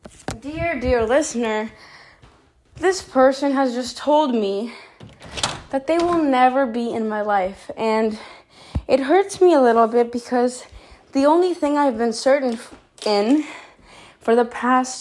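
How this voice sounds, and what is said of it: Breathless, out-of-breath speech. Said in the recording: “sorry, I'm out of breath.”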